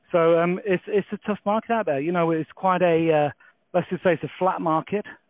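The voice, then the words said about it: English accent. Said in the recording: “as you can tell from the accent, we're based in England”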